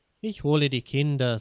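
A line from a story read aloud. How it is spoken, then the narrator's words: Plain. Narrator (German): sagt Wilhelm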